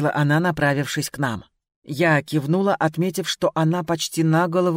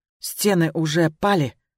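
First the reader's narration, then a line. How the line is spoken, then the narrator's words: Excited, agitated. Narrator (Russian): взволнованно произнесла она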